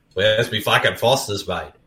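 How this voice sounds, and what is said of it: Put-on Australian accent. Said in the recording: “more of an American accent now, I'm still quintessentially Australian”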